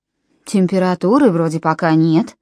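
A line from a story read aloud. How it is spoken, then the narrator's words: Plain. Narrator (Russian): сказала она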